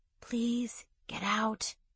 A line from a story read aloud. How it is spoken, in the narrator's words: she said softly